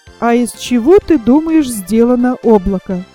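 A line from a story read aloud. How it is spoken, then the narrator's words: Plain. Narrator (Russian): спросил Знайка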